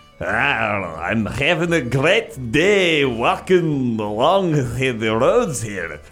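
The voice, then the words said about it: Lazy put-on Scottish accent. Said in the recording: “lazy Scottish hikers ... I'm going to make this accent pretty lazy as well.”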